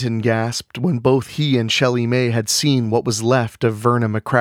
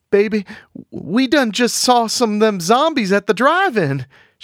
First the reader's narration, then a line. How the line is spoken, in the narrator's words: Shelley Mae cried